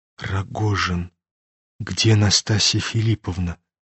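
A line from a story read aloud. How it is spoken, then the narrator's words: Sudden trembling whisper. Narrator (Russian): Прошептал вдруг князь, дрожа всеми членами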